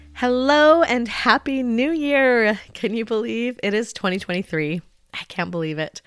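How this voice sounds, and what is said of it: Slightly congested voice from a cold. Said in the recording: “catching a bit of a cold, which I'm still getting over. So my voice might sound a little bit off today. I might cough or sniff here and there ... my voice might be sounding a little different”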